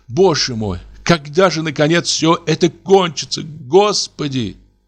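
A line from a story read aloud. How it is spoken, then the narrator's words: Sobbing girlish voice. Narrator (Russian): всхлипнул, как девочка, и спросил голосом плачущей девочки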